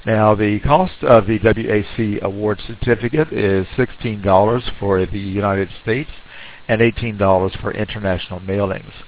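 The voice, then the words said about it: Speaks with an accent. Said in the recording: “my accent”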